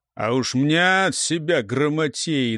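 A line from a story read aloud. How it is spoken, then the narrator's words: Distant grumbling. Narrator (Russian): долетело ворчание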